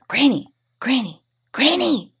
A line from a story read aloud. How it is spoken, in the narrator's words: I whispered loudly